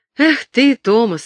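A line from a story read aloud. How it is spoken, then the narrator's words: Laughing older boy. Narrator (Russian): рассмеялся его старший брат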